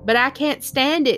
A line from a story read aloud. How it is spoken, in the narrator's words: shouted Wilbur